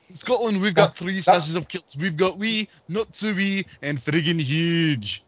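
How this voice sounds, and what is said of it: Put-on Scottish accent. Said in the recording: “if it's not Scottish, it's crap”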